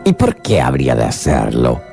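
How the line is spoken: Hatter grumbling. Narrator (Spanish): rezongó el sombrerero

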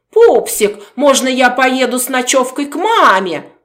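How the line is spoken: Nasty mocking baby talk. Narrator (Russian): Противным голосом передразнил он Катю, копируя ее сюсюкающую манеру

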